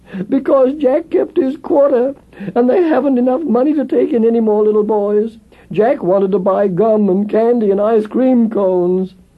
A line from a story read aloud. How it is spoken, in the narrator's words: sobbed the little orphan boy